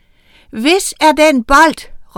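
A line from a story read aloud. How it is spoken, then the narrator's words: Shouted question. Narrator (Danish): råbte hun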